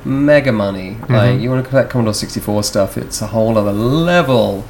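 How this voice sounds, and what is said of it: Mixed British accent. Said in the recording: “I'm from the UK, folks. Don't know if you notice my accent's all over the place.”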